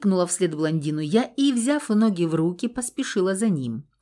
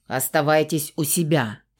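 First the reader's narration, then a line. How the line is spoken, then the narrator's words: Angry male growl. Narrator (Russian): зло рыкнул мужчина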